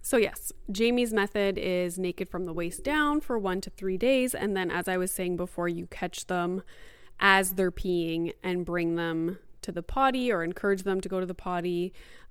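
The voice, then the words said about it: Mildly out of breath. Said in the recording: “I'm like mildly out of breath ... that's why I'm out of breath. I will catch my breath shortly.”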